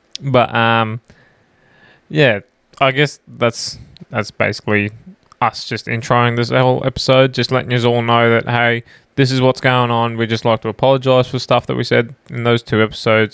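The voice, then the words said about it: Australian accent. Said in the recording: “it's the Aussie accent, mate.”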